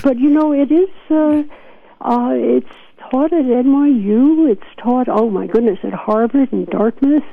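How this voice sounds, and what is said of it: New York accent. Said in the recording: “I hear my New York accent coming back ... I'm starting to talk like a New Yorker”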